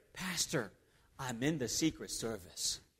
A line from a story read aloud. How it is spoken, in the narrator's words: whispered